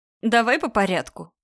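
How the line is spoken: Giggling. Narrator (Russian): хихикает Саманта

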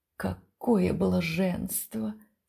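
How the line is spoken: Breathless whisper. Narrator (Russian): шептал декадент, с трудом переводя дыхание

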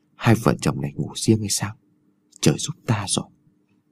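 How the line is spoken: Old man's whisper. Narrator (Vietnamese): lão thì thào

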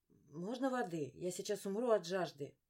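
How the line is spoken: Hoarse wheeze. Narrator (Russian): просипела я

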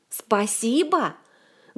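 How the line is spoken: Grief-stricken wail. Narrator (Russian): горестно взвыл хозяин, сообразив, что только что случилось

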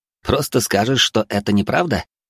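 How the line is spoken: Scoffing snort. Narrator (Russian): хмыкнул Гарри

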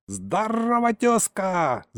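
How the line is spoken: Old man's yell. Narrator (Russian): заорал тут же дедок

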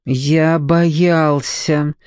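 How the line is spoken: Strained, forced. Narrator (Russian): выдавил он с некоторым усилием

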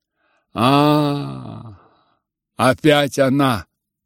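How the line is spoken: Mocking hateful cry. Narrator (Russian): вскричал, насмешливо и ненавистно

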